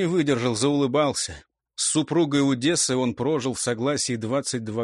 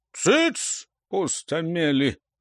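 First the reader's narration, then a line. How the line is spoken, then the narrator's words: Mock-stern barking. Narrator (Russian): больше для виду рявкнул Бакуня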